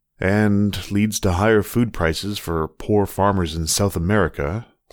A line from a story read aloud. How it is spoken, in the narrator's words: Seth muttered